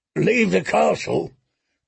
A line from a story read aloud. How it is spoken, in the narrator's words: croaked one-armed Harwood Stout